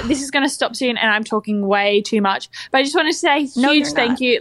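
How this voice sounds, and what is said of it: Crisp Australian accent. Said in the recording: “I love an Australian accent... Oh, it's just so crisp... At first, it sounded British.”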